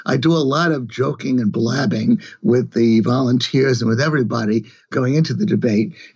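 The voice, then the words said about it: Slightly hoarse voice. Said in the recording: “now I'm getting a little hoarse right now.”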